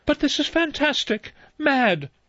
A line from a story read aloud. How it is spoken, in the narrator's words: Vera cried